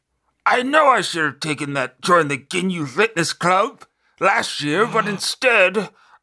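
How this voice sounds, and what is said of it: Cartoon character voice. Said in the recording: “I'm going to try to do my Goldo voice.”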